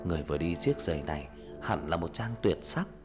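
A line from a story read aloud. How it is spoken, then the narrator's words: Entranced king murmuring. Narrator (Vietnamese): Nhà vua như trong cơn mê lẩm bẩm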